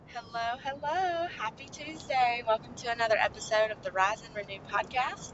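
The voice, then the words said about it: Sick voice, scratchy throat. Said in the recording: “if you can't tell it in my voice, I'm not feeling the greatest right now ... just a little like head cold, scratchy throat kind of thing ... my throat hurts”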